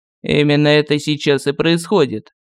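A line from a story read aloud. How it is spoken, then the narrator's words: Gloomy. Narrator (Russian): мрачно сказал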